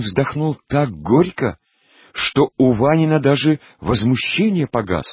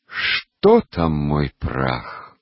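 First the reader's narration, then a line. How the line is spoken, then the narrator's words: Gloomy smirk. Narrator (Russian): уныло усмехнулся Хацкин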